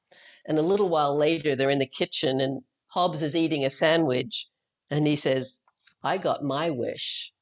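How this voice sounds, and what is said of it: Faint Australian accent. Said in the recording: “I don't know if you can tell, I have an accent. I'm actually originally from Australia, though I left there in 1980”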